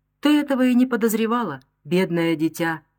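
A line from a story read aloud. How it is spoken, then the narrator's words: Exclamation. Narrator (Russian): воскликнула мадам Фремроль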